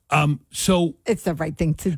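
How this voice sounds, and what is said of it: Imitates another person's voice. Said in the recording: “your impersonation of a particular governor”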